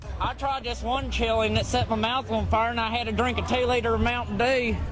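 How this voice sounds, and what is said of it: American accent. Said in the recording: “She's American”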